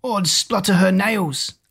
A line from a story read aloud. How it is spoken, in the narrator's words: cried the giant, who was ashamed to be outdone by Jack